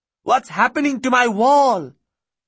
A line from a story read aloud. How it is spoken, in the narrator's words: Fatima began to shout